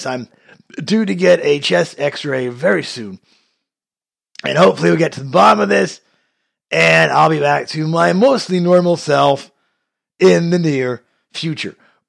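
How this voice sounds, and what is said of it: Unwell, not fully recovered voice. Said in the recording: “my voice is still not where it should be, and that is a crying shame ... after 2 months, fighting this same virus”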